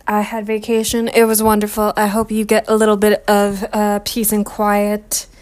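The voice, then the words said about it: Slightly raspy, rough voice. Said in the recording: “a little raspy. My voice is a little hecked up because of cat hair and dust.”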